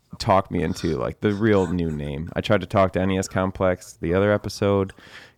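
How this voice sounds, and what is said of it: Sick-sounding voice. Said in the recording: “I'm sick. So I apologize for my voice”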